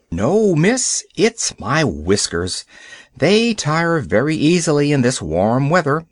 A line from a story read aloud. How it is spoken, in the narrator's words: said he